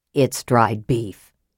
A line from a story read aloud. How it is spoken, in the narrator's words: said Flint with a low chuckle